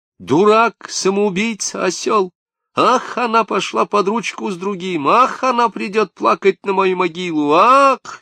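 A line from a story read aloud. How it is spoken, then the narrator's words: Shrill mocking girl imitation. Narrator (Russian): визжал он, изображая какую-то девицу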